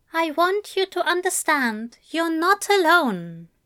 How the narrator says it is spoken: he said calmly

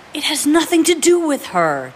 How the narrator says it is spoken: James positively hissed

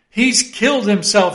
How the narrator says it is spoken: she cried

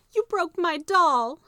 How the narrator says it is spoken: she cried

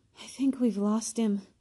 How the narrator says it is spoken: Harry panted

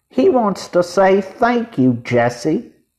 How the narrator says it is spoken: cried Violet

